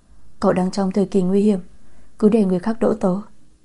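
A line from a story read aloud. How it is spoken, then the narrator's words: Whispering. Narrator (Vietnamese): giọng nói thì thào vang lên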